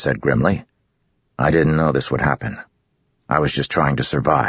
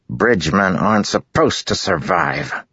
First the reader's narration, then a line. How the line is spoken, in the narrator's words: Lamoral said curtly